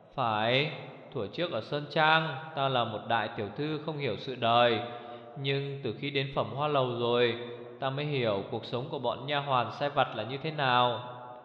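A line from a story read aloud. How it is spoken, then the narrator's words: Sighing. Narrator (Vietnamese): Như Ca thở dài nói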